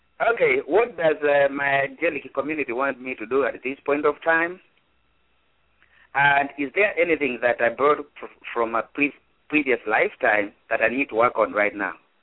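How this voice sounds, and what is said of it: Speaks with a distinct accent. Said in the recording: “I thought I recognized your accent.”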